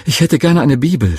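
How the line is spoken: Excited stammering. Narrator (German): stotterte ich ganz aufgeregt

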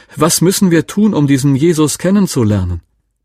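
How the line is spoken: Woman suddenly calling loudly. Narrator (German): rief eine Frau plötzlich ganz laut

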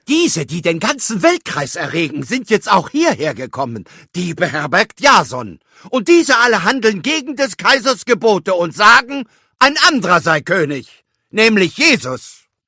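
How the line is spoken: Crowd shouting. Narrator (German): schrien

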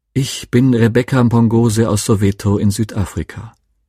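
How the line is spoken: Pleasant voice. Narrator (German): Mit angenehmer Stimme begann sie

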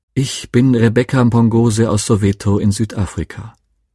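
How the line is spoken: Pleasant voice. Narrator (German): Mit angenehmer Stimme begann sie

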